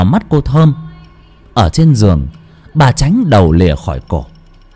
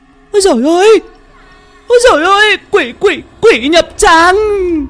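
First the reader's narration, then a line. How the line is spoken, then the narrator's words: Terrified shriek. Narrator (Vietnamese): cô Thơm rú lên một tiếng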